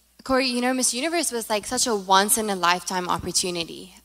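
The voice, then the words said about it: South African accent. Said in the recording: “I'm from South Africa, by the way, if you haven't heard the accent, which is getting messed up because I'm now saying y'all”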